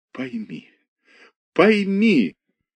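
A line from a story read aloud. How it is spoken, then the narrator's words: Speaking through sobs. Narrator (Russian): выговорила сквозь рыдание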